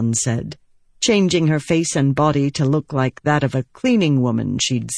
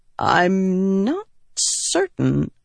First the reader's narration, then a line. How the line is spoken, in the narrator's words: Elokar said hesitantly